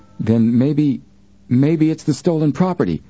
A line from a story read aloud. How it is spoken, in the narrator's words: Joe exclaimed